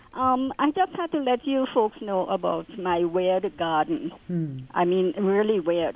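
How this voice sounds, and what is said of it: Trinidadian West Indian accent. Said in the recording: “I'm from the West Indies, Trinidad, to be exact. ... Now that I'm listening, I hear your accent.”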